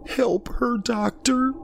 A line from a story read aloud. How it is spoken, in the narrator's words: the woman sobbed